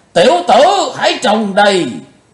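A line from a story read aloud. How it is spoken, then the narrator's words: Sudden loud roar. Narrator (Vietnamese): Lão Độc chợt gầm to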